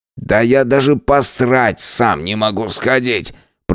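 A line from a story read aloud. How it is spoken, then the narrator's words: Grumbled. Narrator (Russian): пробурчал Эдвард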